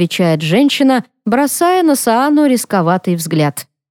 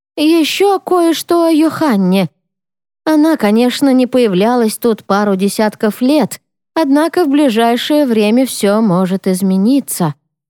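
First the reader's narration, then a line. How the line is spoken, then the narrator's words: Slightly uncertain statement. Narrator (Russian): немного неуверенно сообщает Хилка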